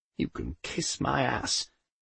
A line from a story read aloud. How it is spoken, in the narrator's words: muttered Poldy